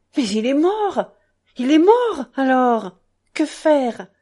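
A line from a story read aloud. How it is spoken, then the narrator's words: Excited exclamation. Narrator (French): s'écria-t-il dans son exaltation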